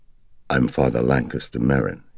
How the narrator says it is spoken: he said

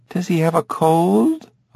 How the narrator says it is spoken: woman asked nervously

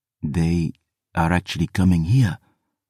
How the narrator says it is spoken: Jean-François breathed

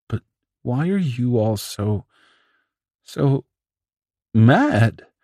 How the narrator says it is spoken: Themis asked, a quavering note in his voice

